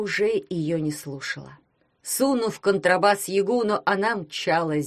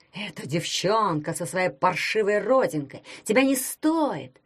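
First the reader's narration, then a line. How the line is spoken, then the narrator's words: Hissed. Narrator (Russian): шипели они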